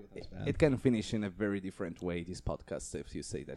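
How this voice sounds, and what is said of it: Italian accent. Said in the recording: “my horrible accent ... It's very romantic and sexy ... Italy”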